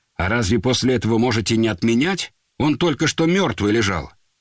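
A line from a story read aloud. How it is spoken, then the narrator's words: Sharp. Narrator (Russian): Афанасьева резко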